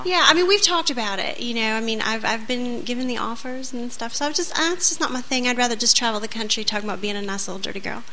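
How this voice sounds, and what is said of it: Southern American accent, sweet-sounding. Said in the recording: “I love her accent... it's beautiful... So it is so sexy... she sounds so innocent... Essence of that Southern belle mystique.”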